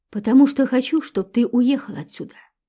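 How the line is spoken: Calm explanation. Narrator (Russian): спокойно пояснила ей Валентина

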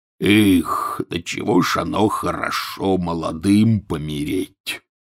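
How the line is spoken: Sudden mutter. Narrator (Russian): пробормотал вдруг Хагрид

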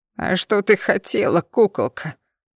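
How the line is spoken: Lewd laughter. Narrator (Russian): Управляющий неприлично захохотал

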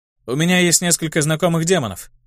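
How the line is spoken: Plain. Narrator (Russian): ответил я

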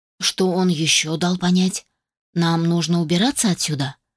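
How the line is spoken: Displeased voice. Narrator (Russian): проговорила недовольным голосом

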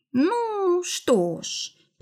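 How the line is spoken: Drawn-out drawl. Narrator (Russian): протянула Вера

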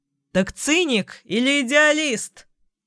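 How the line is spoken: Shouting after someone. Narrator (Russian): крикнул он вслед

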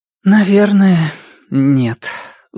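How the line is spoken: Resigned sigh. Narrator (Russian): вздохнула она наконец

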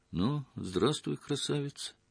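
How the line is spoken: Quiet. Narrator (Russian): тихо сказала

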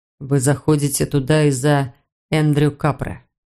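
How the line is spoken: Soft. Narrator (Russian): мягко произнес он

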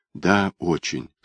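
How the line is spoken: Whispered reply. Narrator (Russian): шепнул он в ответ

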